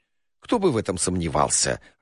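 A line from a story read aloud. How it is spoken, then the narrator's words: Irritated. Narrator (Russian): раздраженно ответила Бента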